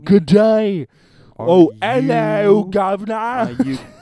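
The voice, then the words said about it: Unconvincing put-on Australian accent. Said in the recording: “Now we're going to go down under. Somewhat British. Australia ... That's not what an Australian sounds like.”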